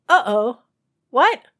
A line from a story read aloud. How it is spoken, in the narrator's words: The confused singer exclaimed